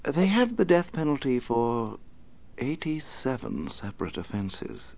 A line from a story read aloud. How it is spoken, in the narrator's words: Alfred said quietly